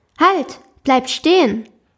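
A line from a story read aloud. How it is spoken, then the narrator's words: Sudden call. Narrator (German): rief es plötzlich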